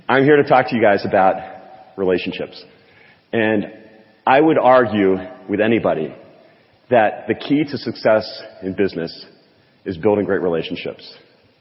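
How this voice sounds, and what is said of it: Hoarse, lower-pitched voice. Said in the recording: “I'm a little bit hoarse. So I'm an octave lower than I usually am”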